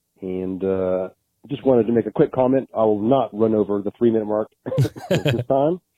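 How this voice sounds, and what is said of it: Congested voice. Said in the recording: “apologize for my voice. I have a little bit of a cold”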